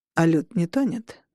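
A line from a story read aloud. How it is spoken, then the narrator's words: Measured, distracted. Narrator (Russian): Берн говорил размеренным голосом, что обычно означало, он делает кучу вещей на экране компьютера параллельно с разговором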